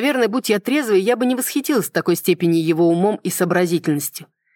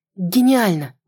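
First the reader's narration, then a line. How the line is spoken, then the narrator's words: Breathed out exclamation. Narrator (Russian): выдохнула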